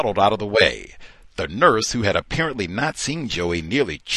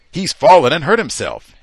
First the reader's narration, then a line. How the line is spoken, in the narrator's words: He quickly yelled out